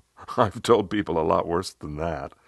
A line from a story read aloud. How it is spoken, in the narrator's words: I laughed and I said